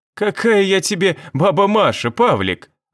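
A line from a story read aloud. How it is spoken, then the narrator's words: Laughing. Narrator (Russian): Она продолжила смеяться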